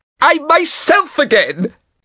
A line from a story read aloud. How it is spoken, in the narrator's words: he shouted